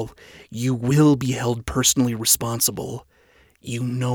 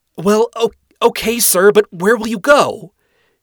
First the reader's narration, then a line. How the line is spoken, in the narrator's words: She yelled after him